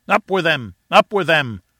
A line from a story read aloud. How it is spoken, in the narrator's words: cried 100 voices